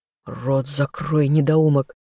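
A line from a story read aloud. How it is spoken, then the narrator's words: Quiet hiss near ear. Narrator (Russian): услышала тихое шипение над ухом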